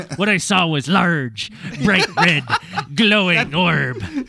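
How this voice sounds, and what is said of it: Pirate-like storytelling voice. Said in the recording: “you sound like you're doing a pirate voice ... That's the fucking voice ... Are you trying to be more piratey”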